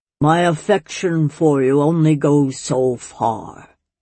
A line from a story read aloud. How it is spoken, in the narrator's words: he said, his voice reverberating strangely in the small room